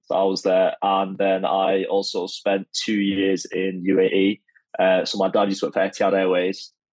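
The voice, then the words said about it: Manchester English accent. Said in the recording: “I was born and brought up in Manchester, as you probably can tell from the accent.”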